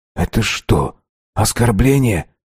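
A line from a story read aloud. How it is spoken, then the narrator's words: Whisper. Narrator (Russian): прошептал я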